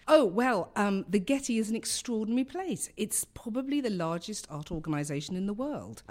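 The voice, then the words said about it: London English accent. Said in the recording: “I come from London, as you can tell by my accent.”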